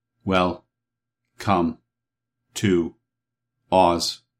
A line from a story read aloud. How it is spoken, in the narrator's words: said the copper man in a monotonous tone